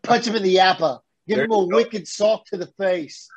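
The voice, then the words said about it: Poor attempt at Boston accent. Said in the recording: “my attempt at a Boston accent. Horrible.”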